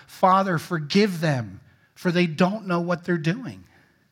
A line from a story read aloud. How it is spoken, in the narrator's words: Jesus on the cross cried